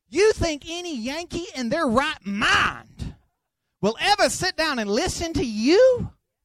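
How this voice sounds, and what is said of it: Strong regional American accent. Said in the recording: “Listen to the way you talk... They'll hear your accent... this is not the most intelligent accent”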